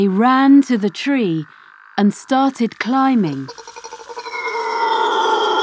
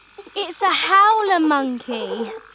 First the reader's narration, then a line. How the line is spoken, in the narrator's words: Phoebe shouted